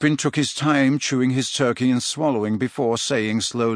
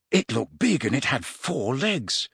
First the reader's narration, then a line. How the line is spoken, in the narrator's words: said Harry, struck by a sudden thought and lowering his voice